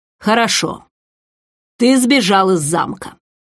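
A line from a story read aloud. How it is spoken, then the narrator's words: Curt, suppressed anger. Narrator (Russian): отрывисто, явно стараясь сдерживать гнев, бросил Рестат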